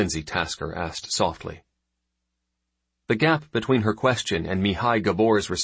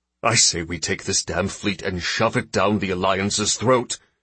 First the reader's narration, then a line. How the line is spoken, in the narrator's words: Gabor snapped